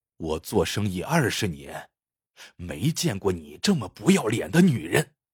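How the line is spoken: Cold, forced words. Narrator (Chinese): 他……从嘴角边冷冷的挤出一句话

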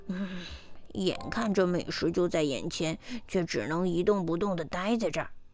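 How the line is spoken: Irritated muttering. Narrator (Chinese): 狐狸窝火地嘟囔着

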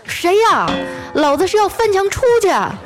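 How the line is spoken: Hysterical shouting. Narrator (Chinese): 有人歇斯底里的喊

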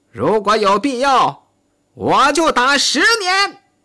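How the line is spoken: Shouting. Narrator (Chinese): 喊道

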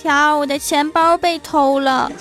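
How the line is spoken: Crying hard. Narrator (Chinese): 欢喜哭得跟什么似的，说

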